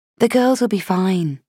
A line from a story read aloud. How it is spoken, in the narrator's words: I said gently